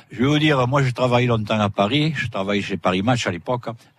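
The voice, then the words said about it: Southern French regional accent. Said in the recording (French): “ne pas avoir l'accent d'ici ... vous êtes des pointus ... on se force pas, on est comme ça ... j'ai jamais perdu mon, mon accent ... il me disait le Marseillais”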